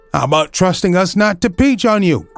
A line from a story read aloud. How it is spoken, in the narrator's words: cried